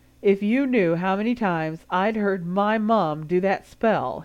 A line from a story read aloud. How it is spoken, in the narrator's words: he replied with a laugh